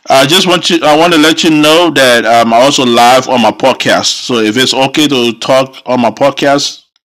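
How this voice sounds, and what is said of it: African accent. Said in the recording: “I still have my African accent going for me”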